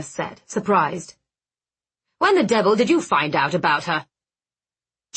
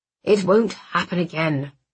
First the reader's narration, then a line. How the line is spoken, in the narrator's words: Magnus said softly